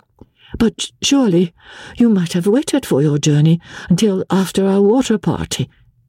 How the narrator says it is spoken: she said, still speaking quickly and nervously

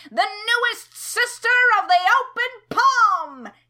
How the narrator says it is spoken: he cried

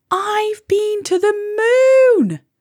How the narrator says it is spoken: Molly cried

